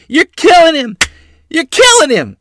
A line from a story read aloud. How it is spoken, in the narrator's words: Mother shrieked as she ran from the house to witness the shocking event